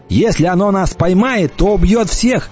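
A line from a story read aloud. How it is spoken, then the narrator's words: Shouting. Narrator (Russian): крикнул я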